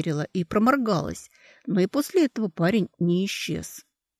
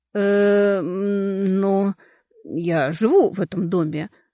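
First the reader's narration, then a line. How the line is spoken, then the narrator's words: Flustered, forced out. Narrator (Russian): растерявшись, выдавила из себя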